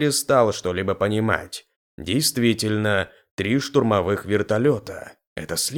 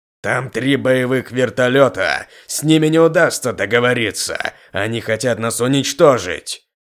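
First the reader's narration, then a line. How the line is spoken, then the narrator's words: Shouted in face. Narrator (Russian): Выкрикнул ему в лицо блондин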